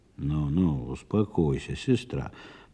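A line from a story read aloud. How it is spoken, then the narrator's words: Muttered. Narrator (Russian): пробормотал Михаил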